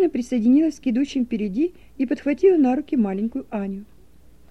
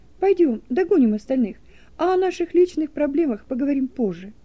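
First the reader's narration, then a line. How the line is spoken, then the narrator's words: Tender. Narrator (Russian): нежно проговорила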